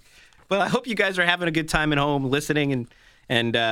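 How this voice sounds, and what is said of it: Usual voice. Nothing is said of it.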